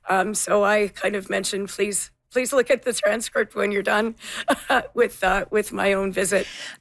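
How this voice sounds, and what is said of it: Voice sounds unwell, not normal. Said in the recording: “you can hear that my voice isn't exactly what it normally is”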